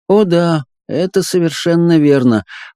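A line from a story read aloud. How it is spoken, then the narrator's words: Gloomy agreement, woman. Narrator (Russian): как-то уныло согласилась она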